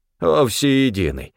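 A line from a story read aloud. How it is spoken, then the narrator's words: Grumbling. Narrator (Russian): проворчал Стефан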